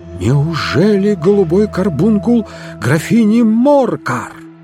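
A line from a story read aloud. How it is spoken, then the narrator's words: Exclaiming. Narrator (Russian): воскликнул я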